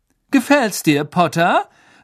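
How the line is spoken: Loud. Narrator (German): sagte Malfoy laut

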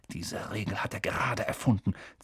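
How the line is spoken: Angry hiss. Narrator (German): zischte Harry wütend

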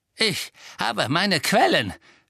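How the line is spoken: Smug hiss. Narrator (German): zischelte Filch selbstgefällig

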